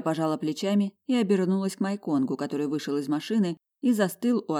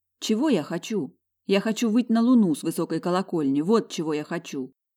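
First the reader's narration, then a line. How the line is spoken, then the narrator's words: Loud. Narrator (Russian): Кира хитро посмотрела на Майконга и громко сказала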